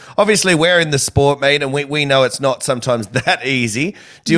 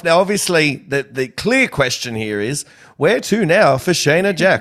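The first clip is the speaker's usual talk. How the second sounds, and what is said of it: Mock news presenter voice. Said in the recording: “putting on my news voice”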